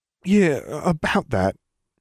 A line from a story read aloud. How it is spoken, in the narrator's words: Ron said uneasily